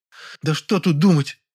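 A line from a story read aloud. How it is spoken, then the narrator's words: Exclaiming. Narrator (Russian): воскликнула она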